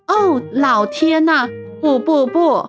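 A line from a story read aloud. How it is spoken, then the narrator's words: Loud shout. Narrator (Chinese): 猫头鹰妈妈大喊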